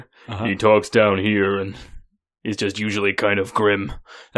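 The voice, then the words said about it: Poor impression, very deep voice. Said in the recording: “That's a very bad Ron Perlman impression... It's very hard to get his voice. It's very deep.”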